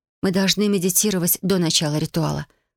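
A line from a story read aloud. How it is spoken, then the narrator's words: Plain. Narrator (Russian): ответила Юми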